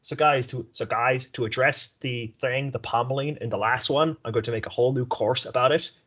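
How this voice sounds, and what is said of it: Imitates another person's voice. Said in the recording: “Pretty good impersonation.”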